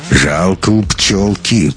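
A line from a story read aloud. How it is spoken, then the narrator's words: Tramp muttering through teeth. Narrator (Russian): процедил бомж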